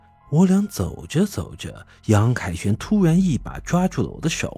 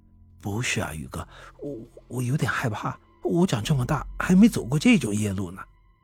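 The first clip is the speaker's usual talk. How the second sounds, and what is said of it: Quiet, timid speech. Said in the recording (Chinese): “畏畏缩缩的走在我旁边，小声的说道”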